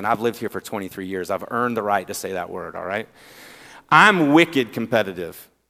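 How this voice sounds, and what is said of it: Southern accent. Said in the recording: “I have a southern accent”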